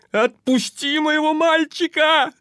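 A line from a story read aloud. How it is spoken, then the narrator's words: Mother yelling. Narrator (Russian): орала мать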